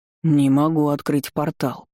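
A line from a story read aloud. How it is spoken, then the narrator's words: Growl. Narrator (Russian): прорычал Энган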